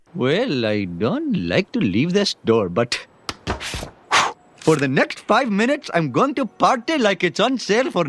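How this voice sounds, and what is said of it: Apu's exaggerated Indian accent. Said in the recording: “the character of Apu from The Simpsons, the Indian immigrant quickie mart owner ... Apu's Indian accent ... I haven't actually ever met anyone in India that sounds like that”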